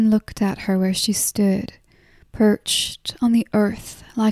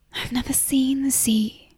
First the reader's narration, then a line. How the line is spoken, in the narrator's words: Jan said, and her voice bespoke longing